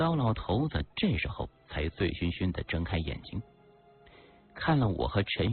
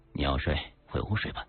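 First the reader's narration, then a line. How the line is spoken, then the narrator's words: Soft-spoken. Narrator (Chinese): 轻声说道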